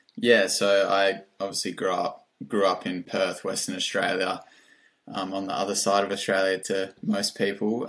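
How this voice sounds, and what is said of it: Australian accent. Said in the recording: “an Antipodean accent”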